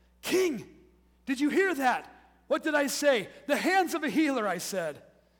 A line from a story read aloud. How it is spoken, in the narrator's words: Iorath exclaim